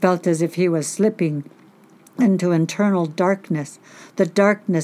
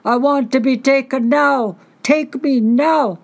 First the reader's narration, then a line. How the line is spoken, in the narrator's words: His mind screamed